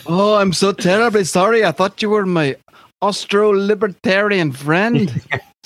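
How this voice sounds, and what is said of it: Unidentifiable, badly done put-on accent. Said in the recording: “I don't even know what accent that is. ... can't do these accents.”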